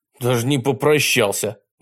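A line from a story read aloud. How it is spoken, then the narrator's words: Indignant. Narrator (Russian): возмущенно сказал Костя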